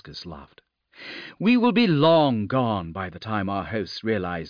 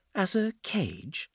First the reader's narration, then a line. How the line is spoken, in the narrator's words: Sliskus sighed